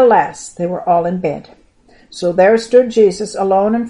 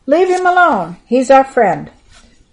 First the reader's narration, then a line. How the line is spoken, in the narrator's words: One of them at least would have called out